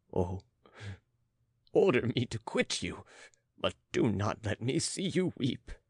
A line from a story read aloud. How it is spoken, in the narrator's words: pleaded the count